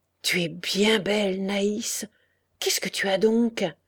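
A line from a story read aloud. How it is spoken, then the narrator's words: Murmuring. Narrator (French): Il murmura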